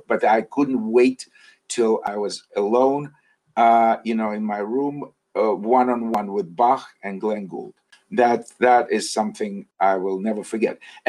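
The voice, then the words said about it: Russian accent. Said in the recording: “it's pretty obvious from your accent, you grew up in Russia”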